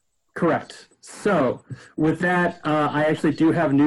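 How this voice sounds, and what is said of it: Usual voice. Nothing is said of it.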